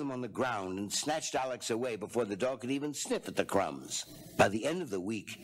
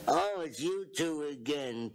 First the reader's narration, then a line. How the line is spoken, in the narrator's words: Tuffy said in a snuffly voice